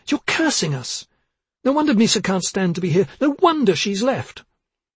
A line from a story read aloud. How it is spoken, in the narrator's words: she cried